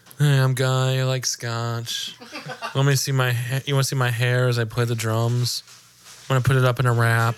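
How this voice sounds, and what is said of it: Exaggerated douchey imitation of another person. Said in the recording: “My Guy impersonation was pretty good, though. ... sounded way more douchey than ... You intentionally sounded way more douchey than I normally sound.”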